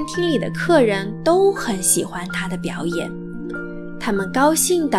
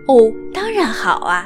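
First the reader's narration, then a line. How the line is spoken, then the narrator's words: Smiling reply. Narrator (Chinese): 贝琳达微笑着回答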